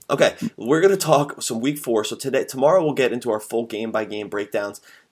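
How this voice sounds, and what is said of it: Slightly scratchy voice. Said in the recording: “Sorry if my voice is a little scratchy.”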